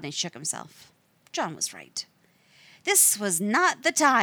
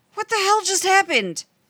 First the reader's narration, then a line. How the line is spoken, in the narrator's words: Rodney yelled